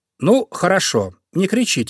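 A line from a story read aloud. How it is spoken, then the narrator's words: Plain. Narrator (Russian): сказал зайка Петя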